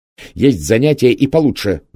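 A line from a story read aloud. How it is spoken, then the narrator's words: Angry bark into receiver. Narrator (Russian): злобно рявкнула княжна прямо в мембрану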